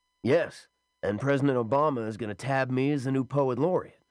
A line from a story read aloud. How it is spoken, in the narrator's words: Don Allman exclaimed